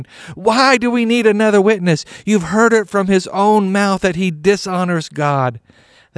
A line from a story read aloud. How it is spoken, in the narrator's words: the religious leader tore his clothing to show his horror, shouting